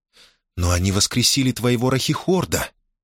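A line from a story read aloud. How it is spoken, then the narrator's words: Uncertain, surprised. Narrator (Russian): неуверенно продолжила Мона Сенни, с изумлением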